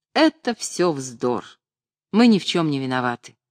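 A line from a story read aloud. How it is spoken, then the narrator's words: Calm. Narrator (Russian): спокойно сказал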